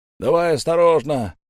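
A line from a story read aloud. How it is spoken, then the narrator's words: Shouted. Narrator (Russian): крикнул кто-то из людей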